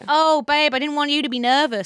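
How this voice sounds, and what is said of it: Put-on Australian accent. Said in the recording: “Your Australian accent. ... Why is she a kangaroo?”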